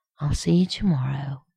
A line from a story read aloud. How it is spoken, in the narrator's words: John murmured against his mouth